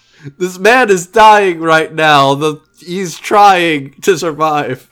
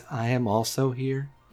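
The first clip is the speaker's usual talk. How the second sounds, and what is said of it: Tiny, soft voice. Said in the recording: “says in a tiny voice”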